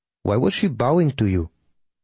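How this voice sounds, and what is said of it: Put-on Tamil accent. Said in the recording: “She asked in her Tamil accent.”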